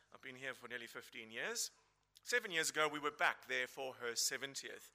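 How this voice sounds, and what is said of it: South African accent. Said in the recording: “where my accent comes from, it comes from South Africa”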